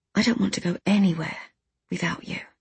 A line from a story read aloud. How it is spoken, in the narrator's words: I said quietly